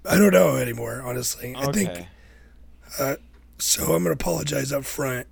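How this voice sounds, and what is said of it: Rough, sick-sounding voice. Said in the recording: “my voice is terrible. I am definitely sick ... you sound pretty bad, bud”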